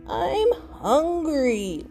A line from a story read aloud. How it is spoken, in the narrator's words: Wendell whined